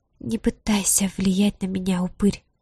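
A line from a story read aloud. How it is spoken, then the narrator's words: Angry breathy exhale. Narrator (Russian): выдохнула она зло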